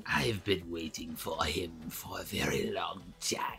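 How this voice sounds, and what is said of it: Raspy zombie-like sci-fi villain voice. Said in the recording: “Thanks, Cobra Commander. ... It was more of a Palpatine. ... You have to like, invert breathe when you do his voice, too. ... Because he's, like, all zombie-like.”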